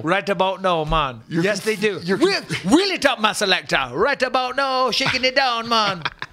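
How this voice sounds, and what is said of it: Put-on Jamaican accent. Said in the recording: “This ain't no Jamaican accent”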